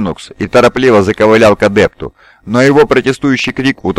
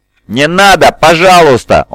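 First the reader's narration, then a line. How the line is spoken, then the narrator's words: Straining to shout. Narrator (Russian): старался закричать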